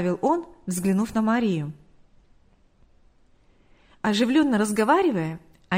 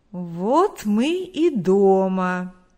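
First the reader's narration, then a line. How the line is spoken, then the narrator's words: Drawled, male. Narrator (Russian): протянул Виктор Егорович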